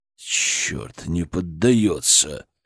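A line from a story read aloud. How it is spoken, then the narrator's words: Hissed through teeth. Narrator (Russian): Прошипел он сквозь зубы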